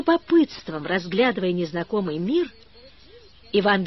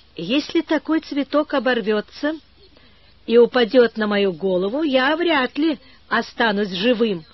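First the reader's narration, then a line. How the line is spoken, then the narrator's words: Laughing. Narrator (Russian): засмеялся Иван Гермогеныч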